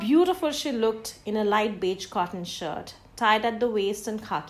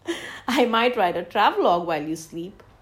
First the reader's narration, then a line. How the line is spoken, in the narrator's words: laughed back